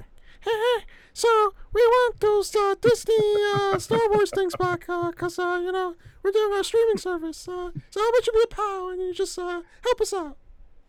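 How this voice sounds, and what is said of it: Mafia-style Mickey Mouse voice. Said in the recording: “Mafia Mickey impersonations”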